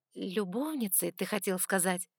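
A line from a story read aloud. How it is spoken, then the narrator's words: Soft correction. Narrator (Russian): Мягко поправила я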